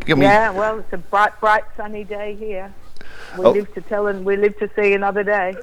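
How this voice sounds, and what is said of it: Australian accent. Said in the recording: “I love an Australian accent.”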